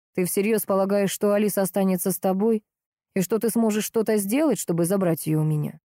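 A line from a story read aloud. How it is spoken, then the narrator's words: Very calm, terrifying voice. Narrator (Russian): Очень спокойно, но до ужаса страшным от этого спокойствия голосом, спросил он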